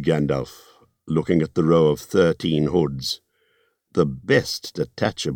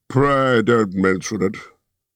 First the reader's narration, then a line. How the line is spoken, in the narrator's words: he grunted